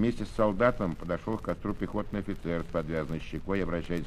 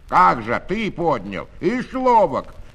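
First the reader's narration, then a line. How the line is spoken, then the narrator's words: Hoarse shouting. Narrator (Russian): кричал один хриплым голосом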